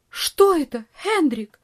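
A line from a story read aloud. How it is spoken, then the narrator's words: Aunt crying out. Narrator (Russian): вскрикнула тетушка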